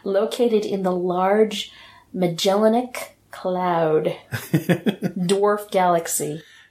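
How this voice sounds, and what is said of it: Mock science narrator voice. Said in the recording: “put on my best science voice.”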